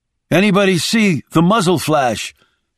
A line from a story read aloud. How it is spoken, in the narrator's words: called out